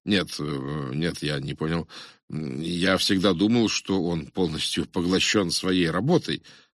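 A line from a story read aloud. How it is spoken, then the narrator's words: Stammering, surprised. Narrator (Russian): я не сумел скрыть своего удивления, когда, запинаясь, ответил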